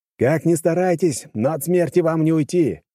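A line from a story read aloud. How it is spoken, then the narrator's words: Shout. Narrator (Russian): крикнул им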